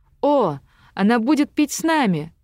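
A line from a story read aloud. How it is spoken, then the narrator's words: Joyful exclamation. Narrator (Russian): радостно воскликнула Ланселетта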